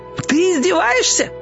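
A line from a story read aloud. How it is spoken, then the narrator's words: Shouting. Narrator (Russian): закричал растяпа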